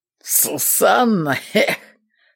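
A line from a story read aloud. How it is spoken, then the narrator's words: Choking half-laugh. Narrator (Russian): То ли подавился, то ли засмеялся воевода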